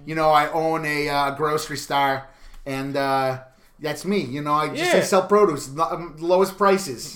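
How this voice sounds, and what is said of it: Bad put-on Chicago accent. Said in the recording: “I did my bad Chicago accent the entire time.”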